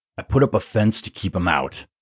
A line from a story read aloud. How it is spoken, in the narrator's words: grumbled